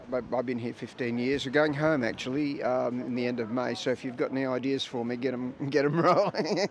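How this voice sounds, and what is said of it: Australian accent. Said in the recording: “I detect an accent. Is that Australian?”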